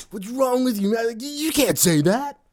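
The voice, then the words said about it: Imitates another person's voice. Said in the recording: “my really terrible Greg impersonation”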